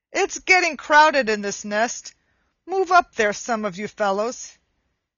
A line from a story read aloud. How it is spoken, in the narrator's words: Cluckety Cluck, the oldest egg of all, called out angrily